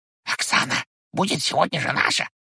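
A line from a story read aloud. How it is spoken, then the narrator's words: Whispered. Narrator (Russian): шепнул он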